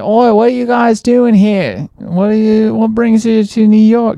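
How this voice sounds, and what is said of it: Heavy Australian accent. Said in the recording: “he had this like a very heavy Australian accent”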